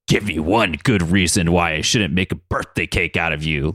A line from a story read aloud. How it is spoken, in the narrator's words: Logan growled